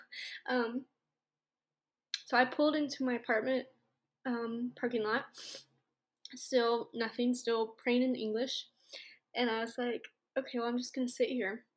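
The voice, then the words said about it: Emotional, tearful voice. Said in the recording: “I'm getting emotional.”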